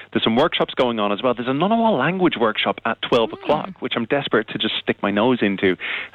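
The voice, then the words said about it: Irish accent. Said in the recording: “As you can probably hear from my accent, I'm very much an adopted Aussie. I'm originally from Ireland.”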